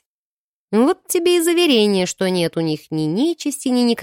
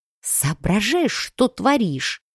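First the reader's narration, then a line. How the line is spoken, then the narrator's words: Hissing. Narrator (Russian): зашипела я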